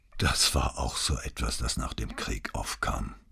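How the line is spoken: Tired voice. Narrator (German): sagte, und es klang müde

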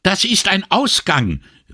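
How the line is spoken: Shrill call. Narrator (German): rief sie mit schriller Stimme

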